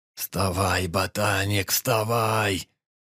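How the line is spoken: Hoarse wheeze. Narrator (Russian): Прохрипел Перепел

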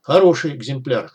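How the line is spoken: Hamster's snort. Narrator (Russian): хмыкнул хомяк

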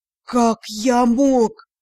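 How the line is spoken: Teacher groaning. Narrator (Russian): Простонал преподаватель

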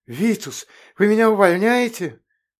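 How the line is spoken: Horrified exclamation. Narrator (Russian): в ужасе воскликнул Сабан

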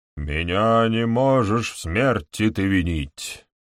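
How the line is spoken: Deep chesty voice. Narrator (Russian): произнес он грудным низким голосом

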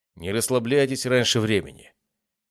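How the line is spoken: Pleased growl, three voices. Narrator (Russian): Тень довольно рыкнул 3 головами одновременно

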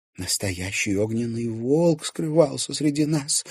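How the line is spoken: Excited whisper. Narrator (Russian): взволнованно шептала Настя Ведунина

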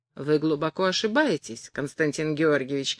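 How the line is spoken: Tender voice. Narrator (Russian): ответил Растрига нежным голосом

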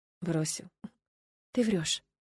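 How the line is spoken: Frightened whisper. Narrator (Russian): прошептала я, хотя внутри все похолодело

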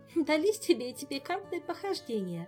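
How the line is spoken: Laughing again. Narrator (Russian): Снова засмеялась Ольга

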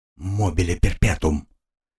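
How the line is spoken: Desperate whisper. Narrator (Russian): Движимый отчаянием, он прошептал

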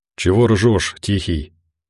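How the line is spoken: Tired-sounding question. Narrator (Russian): как будто устало спросил Бизон

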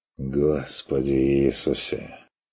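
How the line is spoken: Sigh. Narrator (Russian): вздохнул Стрик

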